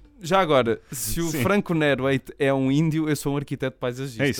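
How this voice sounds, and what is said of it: Usual voice. Nothing is said of it.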